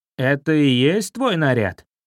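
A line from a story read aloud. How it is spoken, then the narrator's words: Snide ferret's voice. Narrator (Russian): Ехидно прозвучали слова хорька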